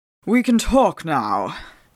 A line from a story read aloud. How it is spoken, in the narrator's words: Phelps said in his usual penetrating voice